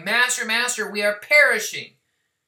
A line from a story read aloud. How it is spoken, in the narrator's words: shouting